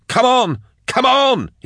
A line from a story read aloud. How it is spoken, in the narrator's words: yelled